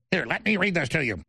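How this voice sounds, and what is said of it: Robotic synthetic-sounding voice. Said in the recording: “in a robot voice ... That's a ChatGPT voice if I've ever heard one.”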